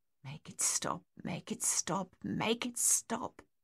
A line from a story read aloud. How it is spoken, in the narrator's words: he whispered silently through clenched teeth